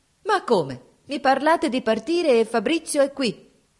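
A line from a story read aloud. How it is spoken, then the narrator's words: Shouting. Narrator (Italian): gridò allora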